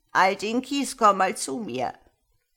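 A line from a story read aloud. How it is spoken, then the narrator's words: Croaked. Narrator (German): krächzte sie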